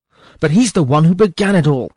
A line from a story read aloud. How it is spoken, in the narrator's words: exclaimed Sir Peter, so hot with anger